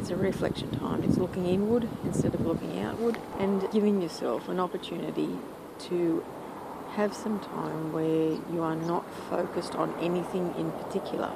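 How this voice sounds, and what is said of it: Quiet, subdued voice. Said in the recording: “you'll probably hear that in my voice, that it's actually a quieter time for me”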